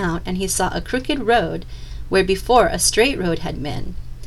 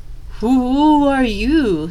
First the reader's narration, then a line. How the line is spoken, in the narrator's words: stammered Claus